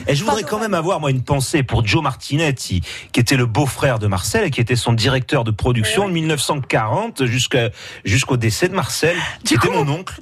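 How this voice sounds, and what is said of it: Put-on Corsican accent. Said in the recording (French): “vous prenez l'accent corse.”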